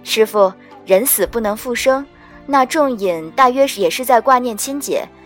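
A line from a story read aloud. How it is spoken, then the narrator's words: Warm, consoling tone. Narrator (Chinese): 我摸着鼻子笑了笑，笑罢凑到他近旁，拿捏出亲切开解的口气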